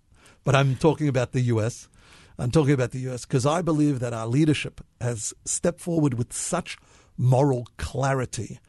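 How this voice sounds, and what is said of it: Slight Australian accent. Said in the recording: “I do have an Australian accent somewhat”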